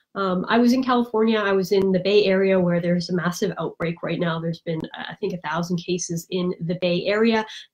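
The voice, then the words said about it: Congested, nasal voice from a cold. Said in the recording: “you can tell I'm congested. ... My voice sounds different. I have a cold”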